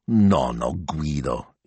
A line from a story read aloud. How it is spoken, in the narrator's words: he grumbled